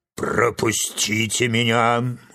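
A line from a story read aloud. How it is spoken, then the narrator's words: Roaring bark. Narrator (Russian): рявкнул лев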